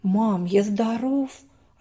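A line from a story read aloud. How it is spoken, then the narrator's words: Plain. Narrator (Russian): ответил Даник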